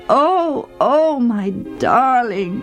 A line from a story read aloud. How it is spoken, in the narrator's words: he wails